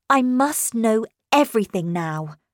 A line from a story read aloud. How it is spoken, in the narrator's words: I said to her firmly